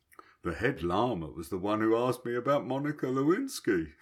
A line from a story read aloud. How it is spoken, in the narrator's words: he laughed